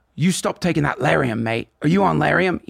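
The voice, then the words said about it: Put-on Australian accent. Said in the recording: “Sorry for my bad Australian accent. ... That's pretty good.”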